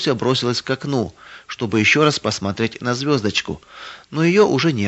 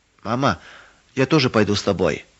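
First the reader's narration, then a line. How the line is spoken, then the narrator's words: Tearful whisper. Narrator (Russian): чуть не плача прошептала Маруся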